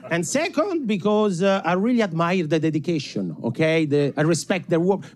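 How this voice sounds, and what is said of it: Italian accent. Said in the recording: “this ridiculous accent? ... It's very hard to be scary if you sound like Super Mario”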